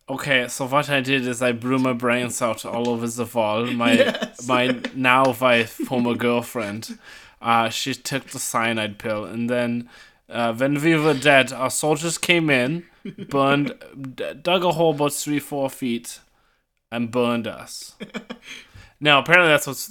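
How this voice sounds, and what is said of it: Good put-on German accent. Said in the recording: “you do a really good German accent.”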